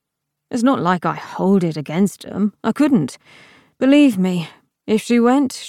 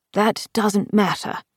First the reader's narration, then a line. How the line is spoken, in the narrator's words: The Emperor said sharply